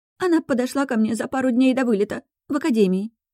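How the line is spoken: Steadier, no longer sobbing. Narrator (Russian): начинает Кора уже связно и без всхлипов

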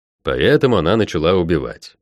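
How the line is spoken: Snort. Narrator (Russian): хмыкнул я

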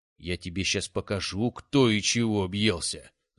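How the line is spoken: Angry, through gritted teeth. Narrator (Russian): зло процедил уязвленный родович

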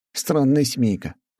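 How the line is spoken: Smirking snort. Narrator (Russian): хмыкнул я

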